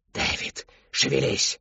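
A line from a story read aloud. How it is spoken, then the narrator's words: Barked. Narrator (Russian): рявкнула Шептунья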